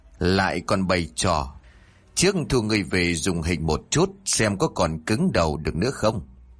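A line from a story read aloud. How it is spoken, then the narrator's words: Cold. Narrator (Vietnamese): Bố của Linh nét mặt vẫn lạnh lùng rồi nói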